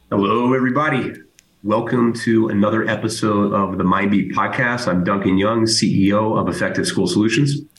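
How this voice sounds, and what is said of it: Strained, weak voice from a head cold. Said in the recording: “as you can probably tell, my voice is hanging on by a very thin thread ... I am under the weather ... whatever kind of gross head cold thing that I have”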